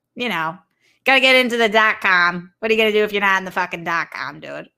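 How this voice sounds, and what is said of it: Exaggerated Boston accent. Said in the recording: “The way that I say .com is like such a Bostonian... tries out shitty, not thought through accents”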